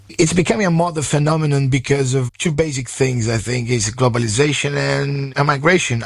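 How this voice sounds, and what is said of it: Sore, strained voice. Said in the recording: “My voice is a bit sore because I was watching Brazil ... I lost the plot totally”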